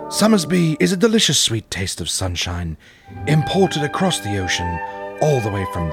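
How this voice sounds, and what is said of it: Fake regal-sounding accent. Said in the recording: “a taste as regal as this fake accent”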